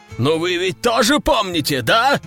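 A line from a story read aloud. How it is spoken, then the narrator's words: Wailing howl. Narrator (Russian): взвыл султан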